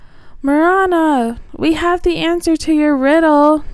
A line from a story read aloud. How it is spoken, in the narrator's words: Gilly cried out